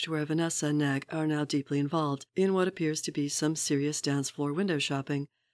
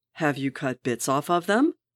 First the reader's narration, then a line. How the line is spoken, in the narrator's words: Wade growls